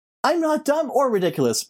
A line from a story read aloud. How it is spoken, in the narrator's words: Brittany shouted